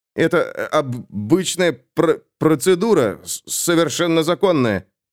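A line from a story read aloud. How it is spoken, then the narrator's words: Strained words. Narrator (Russian): выдавил Итан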